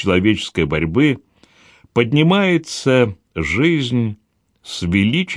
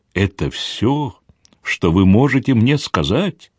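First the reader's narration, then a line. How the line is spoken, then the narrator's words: Trembling question. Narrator (Russian): дрожащим голосом спросила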